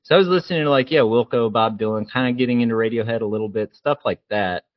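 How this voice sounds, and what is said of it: Distinct accent, sounds different. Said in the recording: “I sound a little bit different ... I've got this accent.”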